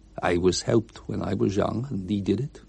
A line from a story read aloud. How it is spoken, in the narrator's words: replied quietly